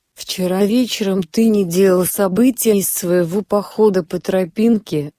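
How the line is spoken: Plain. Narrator (Russian): сказала она

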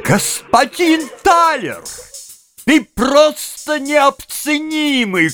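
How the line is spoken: Shout. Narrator (Russian): крикнул мистер Пенни

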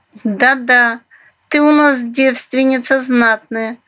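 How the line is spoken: Short laugh. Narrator (Russian): хохотнула Айзулидзе

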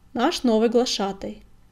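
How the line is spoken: Warrior barking. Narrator (Russian): рявкнул бурый воин

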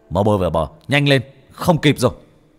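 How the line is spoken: Urgent yell. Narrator (Vietnamese): Bác cổ la lên

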